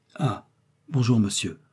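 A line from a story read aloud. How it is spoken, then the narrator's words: Old man's murmur. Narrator (French): a murmuré le vieillard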